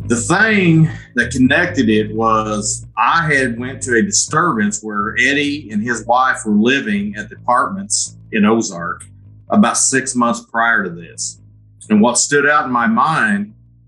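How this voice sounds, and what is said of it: Southern Missouri accent. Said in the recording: “as you can tell from my accent, we're in Southern Missouri.”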